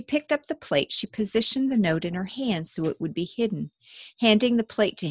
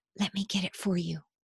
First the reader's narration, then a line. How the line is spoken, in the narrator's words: her whisper